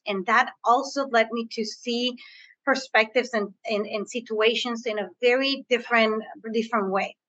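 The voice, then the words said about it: Spanish-influenced English accent. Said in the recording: “As you can hear from my accent, I am bilingual. I speak Spanish. I was born in between the borders.”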